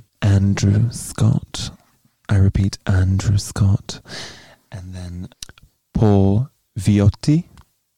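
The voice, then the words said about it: Sexy, seductive voice. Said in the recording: “in a sexy voice”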